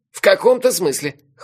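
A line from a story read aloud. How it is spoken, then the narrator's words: Snorting. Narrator (Russian): хмыкнул Мелифара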